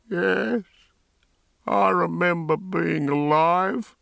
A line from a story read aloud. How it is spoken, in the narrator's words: said in a soft, hoarse voice